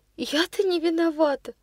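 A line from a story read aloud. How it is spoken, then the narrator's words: Sobbing. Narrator (Russian): Прорыдала она снова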